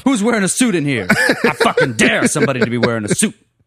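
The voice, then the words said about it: Aggressive, forceful delivery. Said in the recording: “I don't know why I'm talking like an aggressive.”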